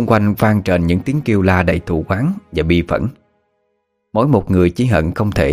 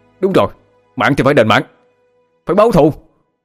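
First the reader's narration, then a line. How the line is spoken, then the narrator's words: Excited group shouting. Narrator (Vietnamese): Các thành viên cũng kích động mà gào lên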